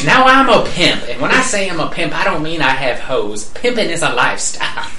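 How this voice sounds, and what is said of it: Imitates a comedian's pimp character voice. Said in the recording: “keep talking in that accent... The Cat Williams... a character on there, like a pimp named Slickback”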